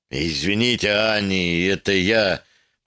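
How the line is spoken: Muttered. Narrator (Russian): пробормотал он

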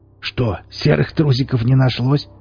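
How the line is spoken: Smirking snort. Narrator (Russian): хмыкнул Велес

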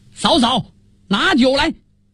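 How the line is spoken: Loud shout. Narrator (Chinese): 宋太祖高声叫喊

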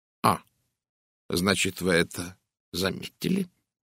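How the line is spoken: Quiet. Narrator (Russian): тихо произнес Пуаро

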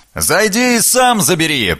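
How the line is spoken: Muffled shout. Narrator (Russian): приглушенно выкрикнули

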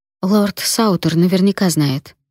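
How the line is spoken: Plain. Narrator (Russian): сказала я

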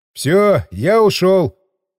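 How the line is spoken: Shout. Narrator (Russian): крикнул помощнику

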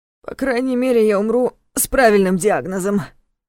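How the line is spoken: Wry grunt. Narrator (Russian): хмыкнул Дементьев

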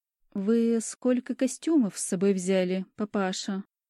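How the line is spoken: Gentle question. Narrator (Russian): мягко спрашиваю

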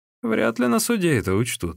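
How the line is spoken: Laughing. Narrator (Russian): рассмеялся Сун Цзян

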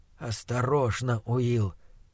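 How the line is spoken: Whisper. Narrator (Russian): прошептал фон Хеллерунг

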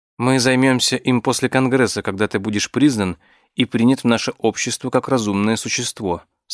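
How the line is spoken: Plain. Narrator (Russian): сказала мне Зира

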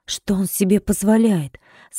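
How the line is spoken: Quiet indignant question. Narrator (Russian): спросила она тихим возмущенным голосом

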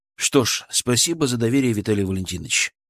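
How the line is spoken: Said calmly, respectfully. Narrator (Russian): сказал я спокойно, с должным уважением

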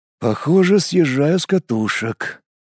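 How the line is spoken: Involuntary muttering aloud. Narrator (Russian): невольно вслух пробормотал я

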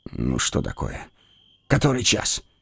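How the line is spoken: Sleepy mumble. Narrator (Russian): Не открывая глаз, пробормотал я

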